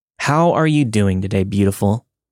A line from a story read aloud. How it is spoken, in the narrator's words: he asked